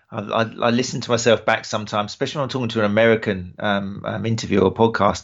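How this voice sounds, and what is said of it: British accent. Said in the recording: “with you delivering it with that wonderful British accent ... the British accent is just a very intoxicating accent to listen to”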